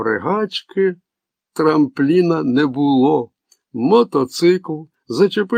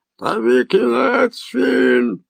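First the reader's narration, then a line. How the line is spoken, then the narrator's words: Dog-hybrid growl. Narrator (Ukrainian): загарчав собачий гібрид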